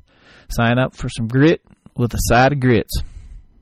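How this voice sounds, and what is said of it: Put-on Southern US accent. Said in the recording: “That'd be my southern accent.”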